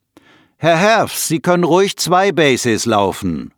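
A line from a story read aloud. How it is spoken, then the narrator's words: Calling out. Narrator (German): ruft einer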